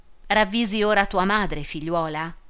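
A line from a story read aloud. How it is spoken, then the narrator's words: Mildly reproachful question. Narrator (Italian): le domandò in tono di rimprovero, ma più blando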